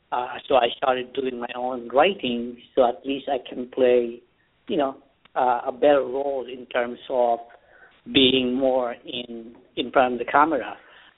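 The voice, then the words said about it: Very strong accent. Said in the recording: “I still have a very strong accent”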